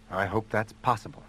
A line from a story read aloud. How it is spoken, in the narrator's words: he said under his breath